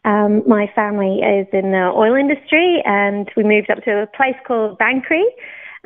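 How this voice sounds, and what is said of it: British accent, not Australian. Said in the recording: “you could probably tell by my accent, I'm not Australian. I was born in the UK.”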